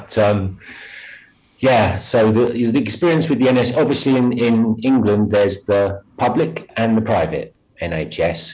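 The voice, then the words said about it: English accent. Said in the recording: “with that accent, you come from the old DART. And did you have any experience with the National Health Service in England”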